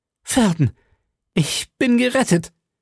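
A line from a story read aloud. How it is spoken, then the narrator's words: Calling out. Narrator (German): rief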